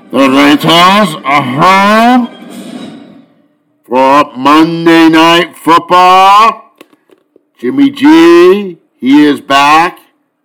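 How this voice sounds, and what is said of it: Impression of Darth Vader's voice. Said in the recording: “good special guest impersonation ... Lord Vader. Darth Vader”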